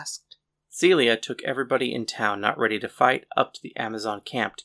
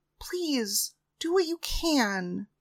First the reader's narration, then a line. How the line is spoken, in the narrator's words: I begged